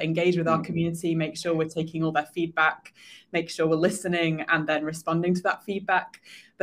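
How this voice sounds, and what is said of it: British accent. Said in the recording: “As you can tell, probably from our accents, ... and I are both based in the UK”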